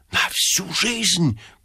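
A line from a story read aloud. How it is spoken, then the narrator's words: Whisper. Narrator (Russian): прошептал Ипполит Матвеевич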